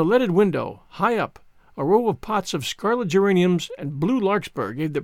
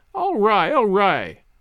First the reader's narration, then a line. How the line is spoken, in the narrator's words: laughed Sally